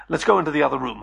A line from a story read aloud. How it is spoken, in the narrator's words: I said quickly